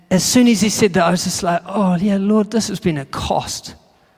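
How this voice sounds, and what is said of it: New Zealand accent. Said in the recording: “I came from New Zealand... My accent sort of gives it away”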